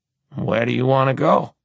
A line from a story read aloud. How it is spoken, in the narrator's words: He asks, with a sigh